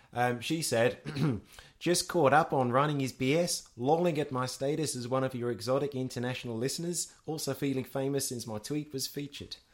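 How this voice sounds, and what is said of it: Put-on New Zealand accent. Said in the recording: “That was my good New Zealand accent. I'm not sure if it really worked as a New Zealand accent.”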